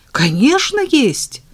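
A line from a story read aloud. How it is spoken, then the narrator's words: Enthusiastic exclamation. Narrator (Russian): с энтузиазмом воскликнул Женя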